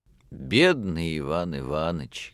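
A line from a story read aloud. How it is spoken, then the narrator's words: Sad sighing speech. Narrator (Russian): говорил хозяин, печально вздыхая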